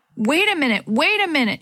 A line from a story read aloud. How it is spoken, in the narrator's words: she yelled up to Didi